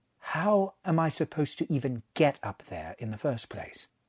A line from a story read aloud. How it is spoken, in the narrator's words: said, as evenly as he could manage